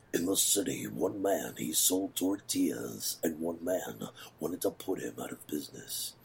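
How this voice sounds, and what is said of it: Deep baritone movie-trailer voice. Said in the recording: “I'm very good at that, like, deep baritone ... it's been done 1,000 times before”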